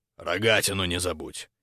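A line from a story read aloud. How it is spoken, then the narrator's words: Muffled curt remark. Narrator (Russian): глухо бросил через плечо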